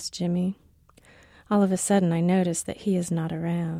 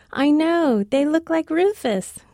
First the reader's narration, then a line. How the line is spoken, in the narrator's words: says happily, like this is good